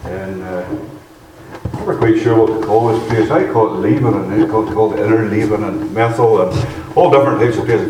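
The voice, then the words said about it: Northern Irish accent. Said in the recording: “I still haven't lost the Irish accent”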